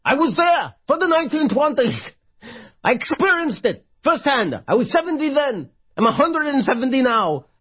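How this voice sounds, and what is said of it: Shouting Bernie Sanders impression. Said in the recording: “I'm still here shouting at you. You think I'm shouting? Why do you think I'm shouting? ... Bernie Sanders.”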